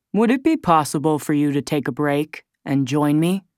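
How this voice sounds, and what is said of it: Calm voice, no regional accent. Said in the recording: “His voice is calm and without an obvious regional accent.”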